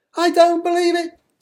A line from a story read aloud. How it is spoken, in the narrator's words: screamed all the family bugs, together in the same high-pitched bug scream